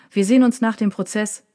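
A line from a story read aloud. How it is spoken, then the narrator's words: Called after. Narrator (German): rief Leimbach ihm nach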